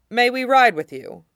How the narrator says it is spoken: Jamie asked

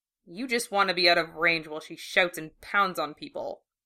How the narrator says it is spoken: he muttered

